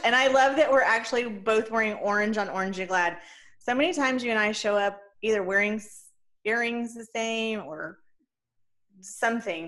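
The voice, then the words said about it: Hoarse, fading voice. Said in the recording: “I'm losing my voice, I think.”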